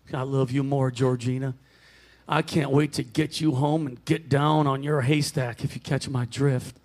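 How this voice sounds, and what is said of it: Put-on Southern US accent. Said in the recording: “Down south and dirty ... I'm going to do an accent.”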